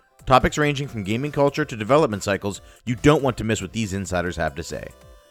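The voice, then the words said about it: Announcer voice. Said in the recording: “you slipped into it. You did announcer voice.”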